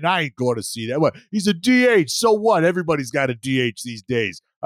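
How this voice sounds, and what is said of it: Put-on Boston accent. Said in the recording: “Why are you trying to sound like a Red Sox fan? ... general Boston accent”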